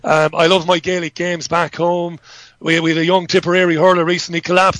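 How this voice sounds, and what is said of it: Strong Irish accent. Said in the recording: “I'm obviously an Irishman. I don't just put on this outrageous accent.”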